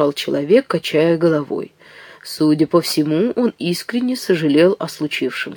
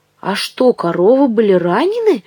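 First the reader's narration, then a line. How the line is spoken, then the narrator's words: Stunned exclamation. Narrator (Russian): ошеломленно воскликнул Ив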